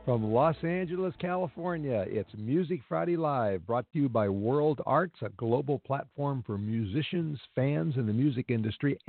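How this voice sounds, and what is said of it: Congested voice with a cold. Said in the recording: “I've got a bit of a cold, so you might notice that.”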